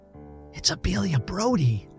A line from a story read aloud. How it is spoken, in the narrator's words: whispered rather loudly